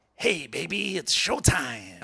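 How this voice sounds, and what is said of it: Jack Nicholson impression. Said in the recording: “So this is my Jack. ... Okay, that's pretty good. ... Jack Nicholson”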